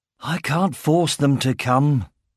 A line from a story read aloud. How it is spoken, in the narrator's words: he sighed